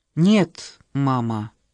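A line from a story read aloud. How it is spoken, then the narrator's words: Gloomy rebuke. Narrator (Russian): мрачно осадила ее Шеба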